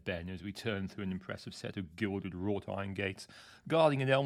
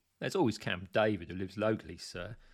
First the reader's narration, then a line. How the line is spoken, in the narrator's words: suggested Ben with a hint of a smile